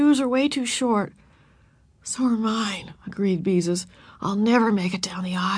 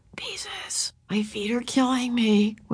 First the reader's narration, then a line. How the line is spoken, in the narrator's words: whispered Ramona with tears in her eyes